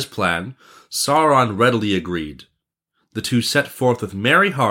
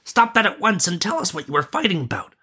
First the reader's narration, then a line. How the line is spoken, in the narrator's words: cried the prince